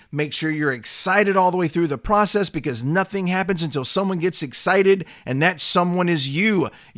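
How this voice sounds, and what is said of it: Excited yelling. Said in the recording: “You have to have a voice coming out of your head like me. I'm not yelling because I just yell. I'm yelling because I'm excited.”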